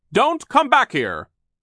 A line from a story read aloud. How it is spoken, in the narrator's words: Sir yelled out after them